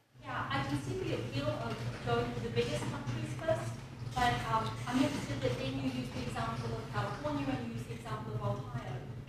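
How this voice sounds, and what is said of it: Accent from a smaller country. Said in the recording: “you can tell by my accent that I'm from one”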